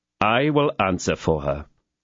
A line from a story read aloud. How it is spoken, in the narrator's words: said Athos